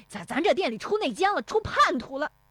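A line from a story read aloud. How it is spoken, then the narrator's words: Furious shouting. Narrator (Chinese): 石有福气急败坏的嚷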